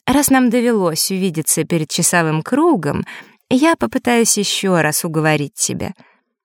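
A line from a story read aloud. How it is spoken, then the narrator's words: Ingratiating, coaxing tone. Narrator (Russian): вкрадчиво начала Маришка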